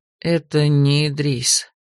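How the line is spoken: Robber, quiet with sigh. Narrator (Russian): вздохнув, тихо сообщил разбойник

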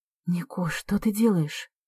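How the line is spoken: Whispered question. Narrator (Russian): шепотом спрашиваю

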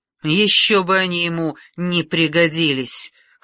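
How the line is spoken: Snorting. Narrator (Russian): хмыкнул Генрих

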